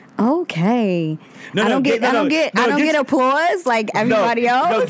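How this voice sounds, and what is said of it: Polished radio announcer voice. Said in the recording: “that's your radio voice. I don't want the radio voice.”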